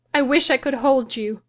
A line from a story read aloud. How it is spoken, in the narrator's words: she continued bitterly